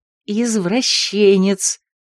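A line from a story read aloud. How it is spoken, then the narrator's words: Hiss. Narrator (Russian): Зашипела Марго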